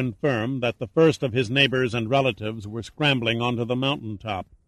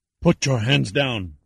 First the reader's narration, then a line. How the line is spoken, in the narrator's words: Yuma hissed